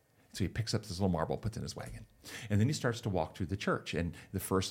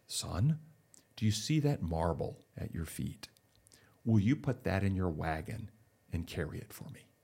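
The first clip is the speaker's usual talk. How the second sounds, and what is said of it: Deep voice. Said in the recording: “deep voice”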